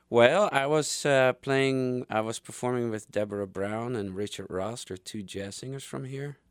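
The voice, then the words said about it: Foreign accent. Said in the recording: “I love your accent.”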